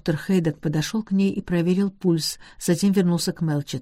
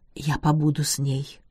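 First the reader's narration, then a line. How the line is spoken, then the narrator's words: Whisper. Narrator (Russian): прошептал он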